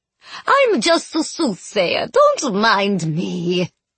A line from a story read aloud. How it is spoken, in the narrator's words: Madame Ionesco chuckled